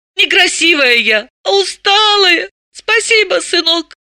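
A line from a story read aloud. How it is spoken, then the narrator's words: Squeaky, holding back sobs. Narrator (Russian): пропищала она, чтобы не зарыдать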